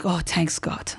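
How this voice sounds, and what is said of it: Put-on Persian accent. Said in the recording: “Your Persian accent, by the way, is so on point.”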